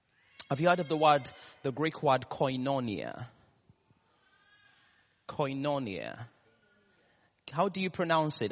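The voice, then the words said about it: Ugandan English accent. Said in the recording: “in my Samia and Ugandan accent”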